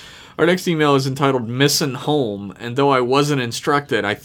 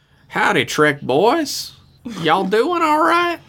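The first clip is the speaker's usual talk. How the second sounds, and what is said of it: Put-on Southern American accent. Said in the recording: “I think I'm supposed to be doing a southern accent for this.”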